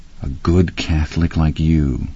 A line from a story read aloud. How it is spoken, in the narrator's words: I sneered softly